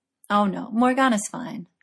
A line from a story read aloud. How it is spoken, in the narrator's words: laughed Merlin